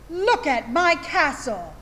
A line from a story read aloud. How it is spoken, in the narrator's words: shouts